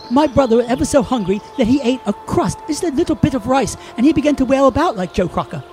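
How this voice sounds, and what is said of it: Slipping put-on English accent. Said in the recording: “Our accents have begun to slip, not unlike Keanu Reeves in Dracula.”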